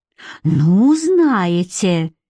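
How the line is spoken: Stunned exhale. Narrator (Russian): выдохнула после полуминутного оцепенения Мюриэл

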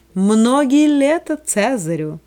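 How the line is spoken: Shout. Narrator (Russian): с высоты балюстрады над головой тетрарха она крикнула

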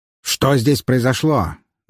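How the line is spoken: Commanding bark. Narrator (Russian): гаркнул он голосом привыкшего повелевать человека

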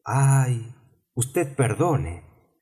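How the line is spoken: Hasty, apologetic exclamation. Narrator (Spanish): exclamó precipitadamente Alicia, sintiendo haber molestado al pobre animalito

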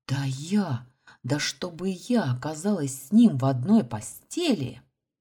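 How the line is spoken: Hissed. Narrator (Russian): зашипела

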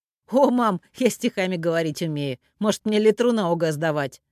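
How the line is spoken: Deep booming laugh. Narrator (Russian): Он басовито захохотал

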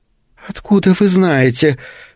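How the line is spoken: Heavy sigh. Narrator (Russian): тяжело вздохнула Рут

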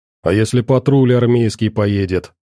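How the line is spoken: Displeased grumble. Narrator (Russian): проворчал недовольно тот

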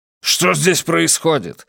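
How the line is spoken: Angry question. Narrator (Russian): сердито спросил Колм

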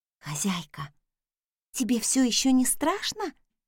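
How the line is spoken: Quiet question. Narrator (Russian): тихо спросила Раиса

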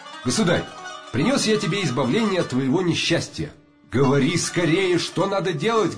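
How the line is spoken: Plain. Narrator (Russian): говорит падишах

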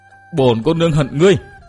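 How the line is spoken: Harsh, menacing voice. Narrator (Vietnamese): Công Tôn Linh Linh gằn giọng nói

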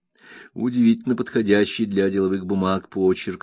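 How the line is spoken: Plain. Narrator (Russian): сказал я

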